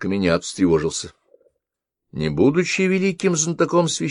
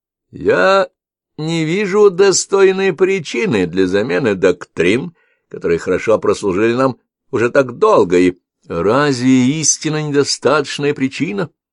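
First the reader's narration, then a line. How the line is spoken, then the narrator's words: Loud interruption. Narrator (Russian): громко прервал его Ршава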